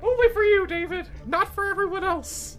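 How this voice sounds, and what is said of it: Mickey Mouse cartoon character voice. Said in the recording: “Mr. Mickey... his impersonation... I got no more Mickey left in me.”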